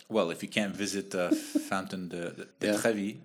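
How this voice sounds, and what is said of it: Put-on French accent. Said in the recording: “why did I say it with a French accent?”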